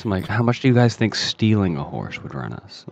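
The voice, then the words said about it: Lowered, hushed voice. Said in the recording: “I lower my voice.”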